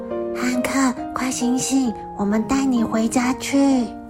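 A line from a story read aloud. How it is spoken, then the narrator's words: Little rabbit, whispering. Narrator (Chinese): 小兔子小声说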